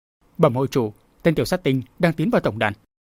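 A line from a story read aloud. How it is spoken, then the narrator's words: Breathless trembling voice. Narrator (Vietnamese): Thở dài một hơi lấy sức, tên phi mã run rẩy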